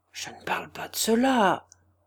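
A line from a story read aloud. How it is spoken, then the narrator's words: Murmured. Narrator (French): murmura Gania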